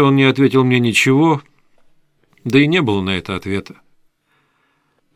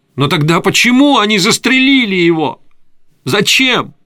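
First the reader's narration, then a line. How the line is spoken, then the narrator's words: Pained cry. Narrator (Russian): выкрикнул с болью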